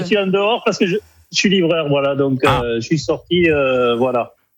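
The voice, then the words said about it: Northern French accent. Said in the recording (French): “on avait remarqué cet accent du Nord, évidemment ... il a l'accent ... on l'a entendu”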